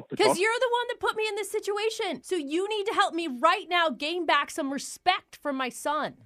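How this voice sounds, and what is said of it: Yelling. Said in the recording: “stop yelling”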